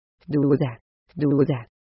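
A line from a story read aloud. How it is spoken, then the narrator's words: Whispered. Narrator (Spanish): susurró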